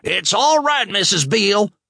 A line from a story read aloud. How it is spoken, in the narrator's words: Natalie suddenly turned on her heel and yelled